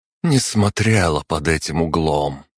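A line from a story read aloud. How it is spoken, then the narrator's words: Tired speech. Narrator (Russian): устало проговорила Арана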